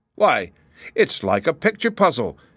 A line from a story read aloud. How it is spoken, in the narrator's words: exclaimed the little girl